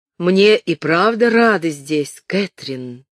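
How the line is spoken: Harsh, thick voice. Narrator (Russian): сказал он резким густым голосом

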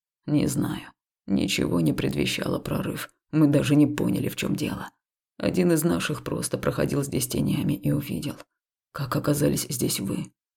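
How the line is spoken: Hoarse question. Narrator (Russian): прохрипел вопрос

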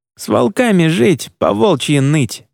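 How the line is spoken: Sighing. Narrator (Russian): вздохнул Джулиан

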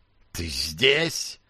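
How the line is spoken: Young man's snake-like hiss. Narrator (Russian): словно змея прошипел молодой

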